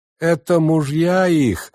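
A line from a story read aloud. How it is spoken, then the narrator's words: Several voices shouting. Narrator (Russian): закричало несколько голосов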